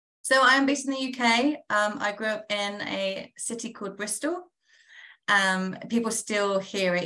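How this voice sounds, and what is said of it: British English accent. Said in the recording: “people are probably hearing the accent.”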